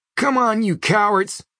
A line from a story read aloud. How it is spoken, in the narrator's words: he yells